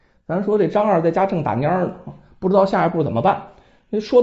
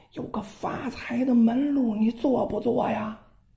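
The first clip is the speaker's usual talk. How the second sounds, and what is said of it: Quiet, hushed voice. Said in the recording (Chinese): “小声的说”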